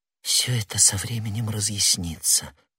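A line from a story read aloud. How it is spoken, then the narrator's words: Young woman whispering. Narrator (Russian): прошептала молодая женщина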